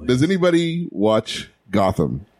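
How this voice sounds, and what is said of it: Smooth, sexy radio-host voice. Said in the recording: “In that sexy radio voice.”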